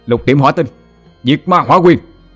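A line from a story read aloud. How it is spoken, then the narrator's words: Roar. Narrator (Vietnamese): Hỏa Lân gầm lên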